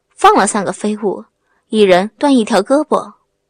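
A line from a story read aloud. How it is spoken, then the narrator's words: Cold. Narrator (Chinese): 高个子 冷声地说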